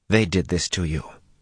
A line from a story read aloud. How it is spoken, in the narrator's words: she said softly